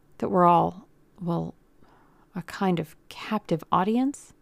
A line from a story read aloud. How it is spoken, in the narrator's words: he offered hesitantly